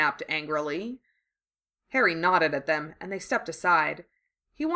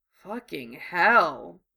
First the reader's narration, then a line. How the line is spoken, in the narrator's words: he muttered